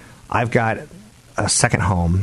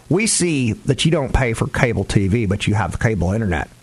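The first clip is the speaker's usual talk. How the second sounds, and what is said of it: Imitates a Texan voice. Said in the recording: “that's my impression of Texas”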